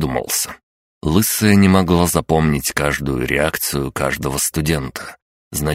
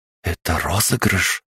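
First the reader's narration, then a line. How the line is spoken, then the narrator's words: Very quiet question. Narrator (Russian): тихо-тихо спросила Мария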